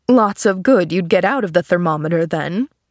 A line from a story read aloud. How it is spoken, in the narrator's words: laughed the man